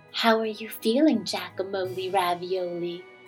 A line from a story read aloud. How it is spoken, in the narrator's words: his sister would whisper